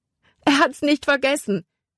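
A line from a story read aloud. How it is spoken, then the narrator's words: Called out. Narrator (German): rief sie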